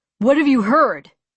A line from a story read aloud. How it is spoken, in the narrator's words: he snapped, even angrier now